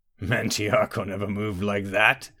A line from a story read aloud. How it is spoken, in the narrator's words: Vokan chuckled